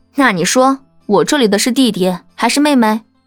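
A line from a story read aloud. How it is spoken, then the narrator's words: Laughing. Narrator (Chinese): 叶帆笑道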